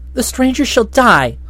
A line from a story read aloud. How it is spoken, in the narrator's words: snapped one